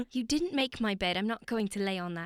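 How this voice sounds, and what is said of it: Put-on posh British accent. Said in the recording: “I wasn't doing a British accent ... Okay, that was pretty good. ... That is actually pretty good. ... I can do a little bit of a British accent”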